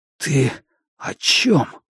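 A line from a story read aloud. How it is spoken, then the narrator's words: Hoarse whisper. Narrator (Russian): хрипло прошептал я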